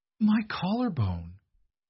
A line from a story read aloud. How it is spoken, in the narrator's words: she gasped